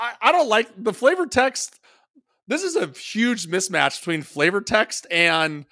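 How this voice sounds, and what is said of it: Usual voice. Nothing is said of it.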